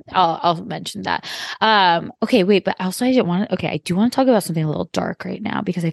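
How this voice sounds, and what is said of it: Usual voice. Nothing is said of it.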